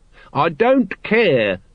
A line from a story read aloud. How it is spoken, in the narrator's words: he shouted, his voice echoing from wall to wall in the silence